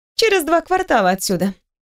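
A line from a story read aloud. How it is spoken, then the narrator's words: Calm answer. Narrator (Russian): отвечает спокойно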